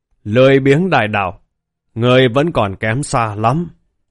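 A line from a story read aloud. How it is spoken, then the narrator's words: Laughing roar, beast. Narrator (Vietnamese): Hỗn độn ma viên thì cười ha hả, gầm rú nói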